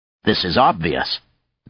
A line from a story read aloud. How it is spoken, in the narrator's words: Zake replied coldly